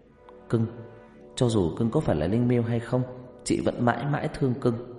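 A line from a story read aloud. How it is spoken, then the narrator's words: Whisper. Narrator (Vietnamese): Huyền thì thầm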